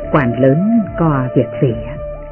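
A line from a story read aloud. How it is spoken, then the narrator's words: Light laugh while speaking. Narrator (Vietnamese): Đạo sĩ khẽ cười và nói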